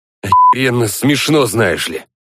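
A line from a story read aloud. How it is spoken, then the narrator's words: Hissed. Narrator (Russian): Прошипел я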